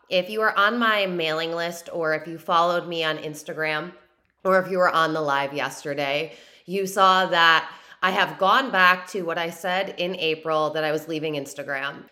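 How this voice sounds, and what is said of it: Slightly raspy voice. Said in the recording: “My voice is a little raspy right now because I have been going ham on teaching lives on TikTok”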